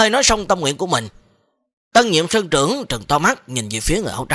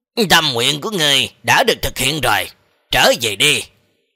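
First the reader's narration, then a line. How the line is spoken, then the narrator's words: Smiling, gentle. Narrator (Vietnamese): Người áo trắng kia như là mỉm cười nói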